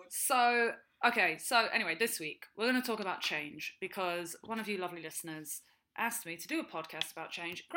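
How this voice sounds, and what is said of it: British accent. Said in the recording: “also has a British accent, which would hint to you that she is also from our fair shores.”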